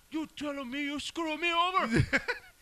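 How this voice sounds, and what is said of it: Overdone Al Pacino Scarface accent. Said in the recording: “Al Pacino's accent ... His accent is just, the way he just, it's so overdone.”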